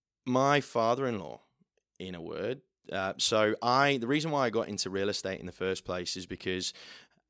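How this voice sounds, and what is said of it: Middle England English accent. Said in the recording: “as I'm sure you can tell from my accent, I'm not from around here. I'm from the middle of England.”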